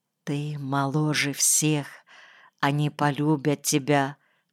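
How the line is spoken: Whispered. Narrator (Russian): прошептала она

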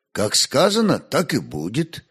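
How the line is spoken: Pleasant, calm voice. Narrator (Russian): отвечал хозяин мельницы неожиданно приятным и спокойным голосом

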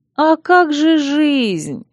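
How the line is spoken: Offended drawl. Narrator (Russian): обиженно протянула милосердная

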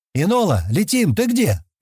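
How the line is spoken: Loud shout. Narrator (Russian): громко крикнул Стэн

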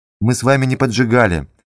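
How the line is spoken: Soft. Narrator (Russian): говорил он мягко

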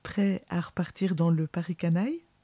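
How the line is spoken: Teasing question. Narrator (French): demanda-t-elle d'un ton taquin

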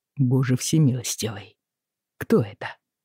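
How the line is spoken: Quiet mutter. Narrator (Russian): тихо пробормотал Роджер

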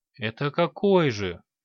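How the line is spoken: Tired question. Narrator (Russian): устало спросил горец

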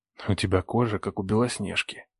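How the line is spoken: Whisper in ear. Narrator (Russian): прошептал ей на ушко

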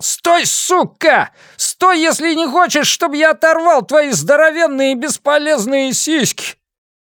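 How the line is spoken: Shouted. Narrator (Russian): Тиан закричал

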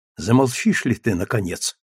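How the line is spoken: Whisper. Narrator (Russian): шепнул Равенель

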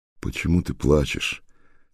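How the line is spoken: Tender question. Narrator (Russian): нежно спросил

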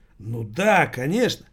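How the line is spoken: Joyful confirmation. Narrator (Russian): радостно подтвердил паспорт тюремный

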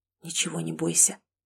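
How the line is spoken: Whisper. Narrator (Russian): Мужская губы прошептали

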